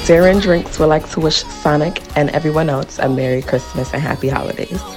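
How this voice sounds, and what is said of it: Polished radio announcer voice. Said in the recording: “She got that proper radio voice.”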